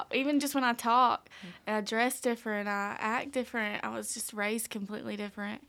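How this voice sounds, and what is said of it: Rural East Tennessee accent. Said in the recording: “I sound so much different than they do when you talk ... I was raised in rural Knoxville ... these leaders were talking about my accent asking me where I was from”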